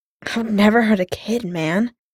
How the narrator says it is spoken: Clint choked out

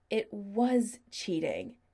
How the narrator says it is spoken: Chris said angrily

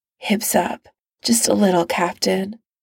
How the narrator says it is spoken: Tony murmurs

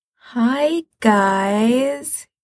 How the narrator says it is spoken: he says weakly

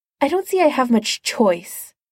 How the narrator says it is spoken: he snapped

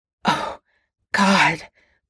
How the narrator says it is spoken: Potter choked out

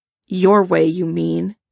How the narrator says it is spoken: Logan snaps

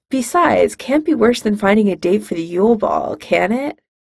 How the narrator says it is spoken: Harry laughs

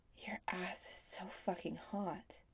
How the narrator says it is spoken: John murmurs

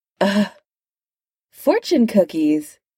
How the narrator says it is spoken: said Tony brightly

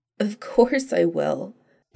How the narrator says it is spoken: Donna said shakily

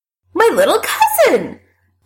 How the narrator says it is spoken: Allison says triumphantly

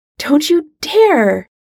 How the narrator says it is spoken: Hermione nearly shouts, scandalized

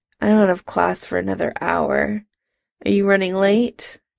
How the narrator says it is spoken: Jim mumbled

